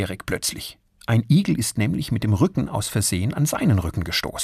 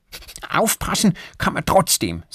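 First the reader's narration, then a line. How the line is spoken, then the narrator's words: Angry. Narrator (German): sagt Erik wütend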